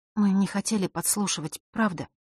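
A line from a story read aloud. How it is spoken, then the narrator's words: Quiet girl's voice. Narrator (Russian): тихо произнесла девочка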